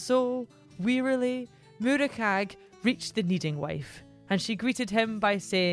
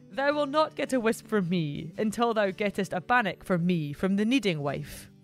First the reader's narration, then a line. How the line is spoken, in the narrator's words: With a chuckle, the barn gilly replied